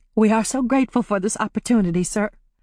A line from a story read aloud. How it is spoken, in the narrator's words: Polly said, her voice breaking